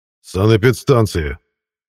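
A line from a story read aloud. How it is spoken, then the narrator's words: Barked. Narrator (Russian): рявкнул Мирон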